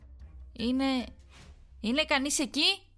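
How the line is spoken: Shouted. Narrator (Greek): φώναξα

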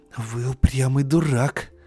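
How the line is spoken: Hiss. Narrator (Russian): зашипела она

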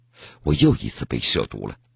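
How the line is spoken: Muttering to himself. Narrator (Chinese): 他在心里又嘀咕上了

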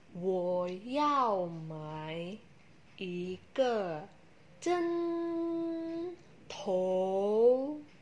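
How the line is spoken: Slowly, reluctantly. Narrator (Chinese): 他只好慢慢的说

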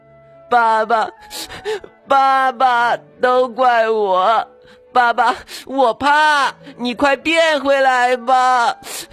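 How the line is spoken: Wailing, crying. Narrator (Chinese): 卡卡大哭

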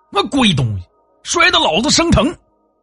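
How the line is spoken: Grumbling curses. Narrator (Chinese): 说完呢，骂骂咧咧的走了

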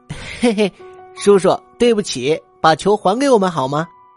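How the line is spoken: Slight smile. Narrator (Chinese): 他微微一笑

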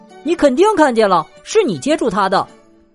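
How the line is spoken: Nearly shouting. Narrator (Chinese): 我几乎叫了起来

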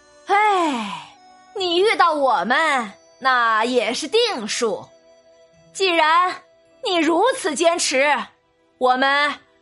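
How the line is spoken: Sighing Taoist. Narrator (Chinese): 道人叹了口气

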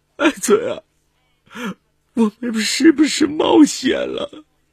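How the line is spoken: Wailing sobs. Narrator (Chinese): 乔敏 嚎啕大哭

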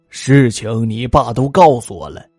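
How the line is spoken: Worried sigh, then serious. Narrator (Chinese): 表叔有些担心的叹了口气，随即严肃的对卓锦熙说

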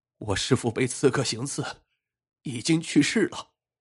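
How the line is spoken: Bitter weeping. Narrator (Chinese): 大汉痛哭道

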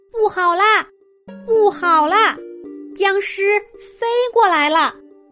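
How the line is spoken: Sudden loud shout. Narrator (Chinese): 蒲公英信使忽然大喊了一声

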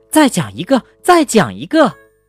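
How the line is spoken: Loud. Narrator (Chinese): 爸爸大声地说

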